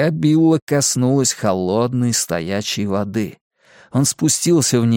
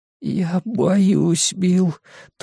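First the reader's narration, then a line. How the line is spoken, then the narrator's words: Thin-voiced whisper. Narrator (Russian): тонким голосом прошептал Эдди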